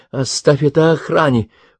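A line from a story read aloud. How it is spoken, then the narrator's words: Pleading repetition. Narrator (Russian): умоляющим голосом повторила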